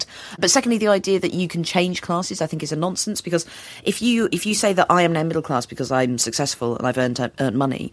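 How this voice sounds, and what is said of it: Standard London media English accent. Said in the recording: “I now have this accent, this kind of sort of classic London media accent ... I assumed this standard English accent”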